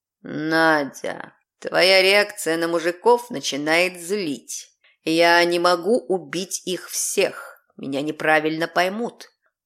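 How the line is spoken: Growling. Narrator (Russian): прорычал Азраал

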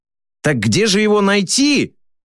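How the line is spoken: Shout after someone. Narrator (Russian): крикнул вдогонку

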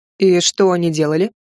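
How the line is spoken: Plain. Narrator (Russian): спросил Кайлен

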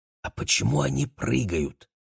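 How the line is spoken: Whispered question. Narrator (Russian): шепотом поинтересовался Максим

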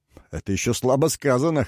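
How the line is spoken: Snort. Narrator (Russian): хмыкнул Каранима

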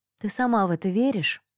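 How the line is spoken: Sighing. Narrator (Russian): вздохнула Мирабель

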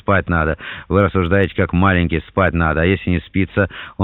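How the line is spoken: Laughing. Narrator (Russian): Он рассмеялся

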